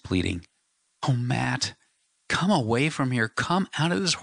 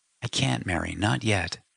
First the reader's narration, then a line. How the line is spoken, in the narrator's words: he said softly